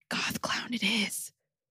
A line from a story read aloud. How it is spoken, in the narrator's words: whispered aloud